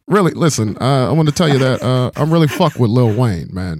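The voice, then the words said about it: Imitates another person's voice. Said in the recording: “I do an Obama impression ... I'd love a good Obama impression.”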